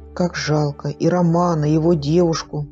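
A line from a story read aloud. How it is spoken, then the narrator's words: Plain. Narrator (Russian): сказала Белана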